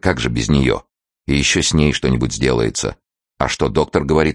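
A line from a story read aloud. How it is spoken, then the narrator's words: Plain. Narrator (Russian): спросил Карась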